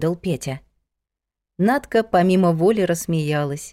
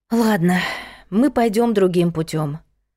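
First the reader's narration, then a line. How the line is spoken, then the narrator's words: Sighing. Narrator (Russian): вздохнула Надка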